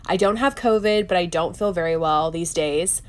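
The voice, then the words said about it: Nasal, congested sick voice. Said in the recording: “I am under the weather, and that is why I sound nasally.”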